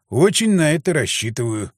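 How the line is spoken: Wry snort. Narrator (Russian): хмыкнул я

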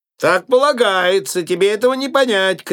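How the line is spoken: Shout. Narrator (Russian): крикнул Фриц

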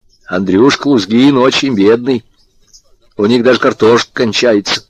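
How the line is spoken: Imitating mother, deliberate tone. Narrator (Russian): Подражая матери обстоятельным голосом сказал

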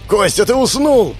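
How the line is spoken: Shouted. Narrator (Russian): закричал Павел

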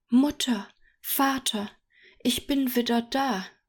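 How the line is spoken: Called out. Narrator (German): rief Dahlia

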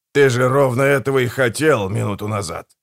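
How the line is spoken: Wry snort. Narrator (Russian): хмыкнул

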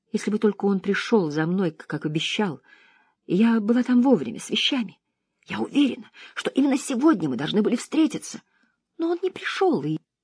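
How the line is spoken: Sudden rapid whisper. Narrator (Russian): вдруг быстро зашептала

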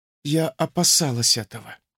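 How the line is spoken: Quiet young woman. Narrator (Russian): тихо сказала девушка

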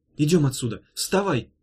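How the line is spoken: Sharp shout. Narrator (Russian): резко крикнула Ирка

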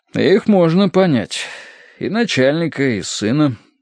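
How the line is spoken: Lazy. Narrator (Russian): лениво сказал Корнеевич

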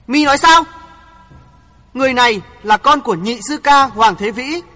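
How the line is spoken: Angry, astonished shout. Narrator (Vietnamese): Quỷ bảo chủ nhân vừa tức giận vừa ngạc nhiên hét lớn

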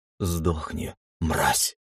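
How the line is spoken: Whispered. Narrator (Russian): прошептал

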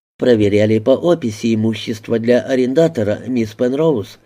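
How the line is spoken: Quick answer. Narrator (Russian): быстро ответил Льюис

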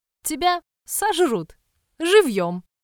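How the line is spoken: Wheezing through laughter. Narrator (Russian): Сипит Мэвис между приступами хохота

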